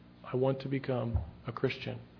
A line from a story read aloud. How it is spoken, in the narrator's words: clearly and calmly said